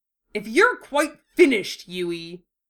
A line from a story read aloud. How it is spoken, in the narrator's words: Wufei snarled at that smug look, acknowledging defeat